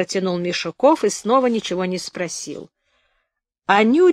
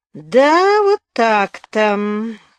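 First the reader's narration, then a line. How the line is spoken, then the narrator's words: Suspicious, through gritted teeth. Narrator (Russian): снова подозрительно процедил Афоня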